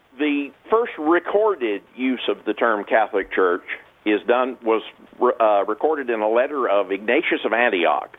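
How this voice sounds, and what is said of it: Southern American accent. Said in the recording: “you're sort of a Southerner ... I appreciate your accent.”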